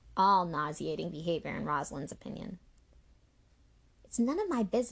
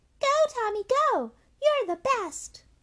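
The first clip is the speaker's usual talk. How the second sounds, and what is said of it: High-pitched mocking imitation voice. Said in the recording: “pitched his high voice.”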